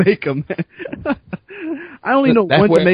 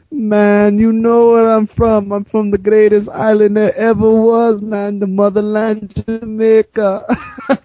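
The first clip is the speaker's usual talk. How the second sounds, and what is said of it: Imitated Jamaican accent. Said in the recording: “Jamaican dude ... because he has that accent”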